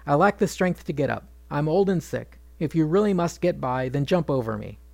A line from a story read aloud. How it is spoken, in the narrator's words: The monkey sighed